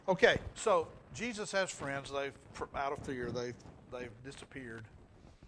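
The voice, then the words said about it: Rural hick-sounding accent. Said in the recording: “where are you from? ... it's my hickey accent”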